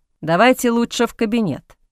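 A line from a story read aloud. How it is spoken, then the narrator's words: Plain. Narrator (Russian): сказал граф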